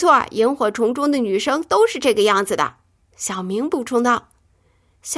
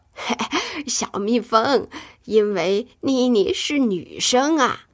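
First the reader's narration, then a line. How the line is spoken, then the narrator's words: Smiling explanation. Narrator (Chinese): 小光笑着解释说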